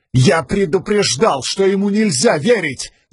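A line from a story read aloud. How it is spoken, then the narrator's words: Yelling while struggling. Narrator (Russian): заорал Адалин, не переставая биться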